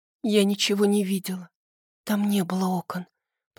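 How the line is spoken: Whisper muffled by hands. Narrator (Russian): прошептала я, пряча лицо в руках

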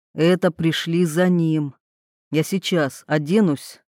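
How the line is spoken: Calm. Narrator (Russian): спокойно сказал он

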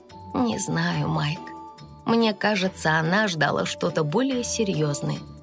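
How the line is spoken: Mother, soft. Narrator (Russian): мягко произнесла мама

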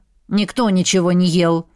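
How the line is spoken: Sulky mutter. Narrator (Russian): буркнула все еще обижающаяся Дэй

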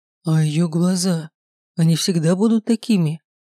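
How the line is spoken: Frightened mutter. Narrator (Russian): испуганно пробормотал Герт

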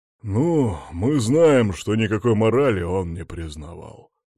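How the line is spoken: Gruff grumbling. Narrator (Russian): проборчал Борис, его голос прозвучал почти грубо

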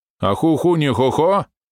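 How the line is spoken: Mocking thuggish tone. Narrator (Russian): ответная реплика ведуна, произнесенная издевательско-гопниковским тоном

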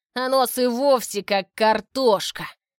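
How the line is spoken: Contemptuous snort. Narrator (Russian): Презрительно фыркнул он

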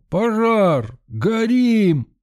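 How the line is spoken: Sudden yell. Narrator (Russian): Вдруг кто-то заорал

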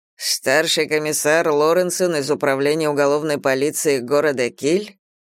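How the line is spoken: Skeptical snort. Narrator (Russian): хмыкнул Брант

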